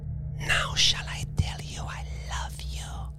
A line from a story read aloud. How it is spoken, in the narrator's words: she whispered